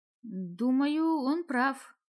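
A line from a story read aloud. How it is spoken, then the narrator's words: Uncertain. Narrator (Russian): неуверенно сказала я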